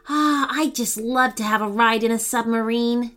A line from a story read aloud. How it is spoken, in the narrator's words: Dani sighed